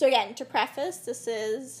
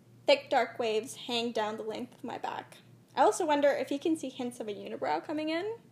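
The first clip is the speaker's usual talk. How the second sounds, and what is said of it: Dramatic reading voice. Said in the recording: “my dramatic voice”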